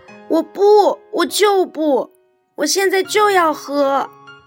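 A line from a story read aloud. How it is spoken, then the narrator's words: Loud whining clamor. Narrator (Chinese): 小鹦鹉……大声嚷嚷着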